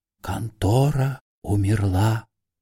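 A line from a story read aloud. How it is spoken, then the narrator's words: Whispered. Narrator (Russian): шепнул Остап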